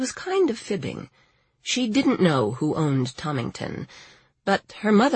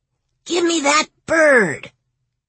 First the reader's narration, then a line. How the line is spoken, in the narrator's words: he shrieked